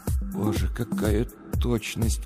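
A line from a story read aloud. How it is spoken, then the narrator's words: Whispered. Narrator (Russian): прошептал Сергей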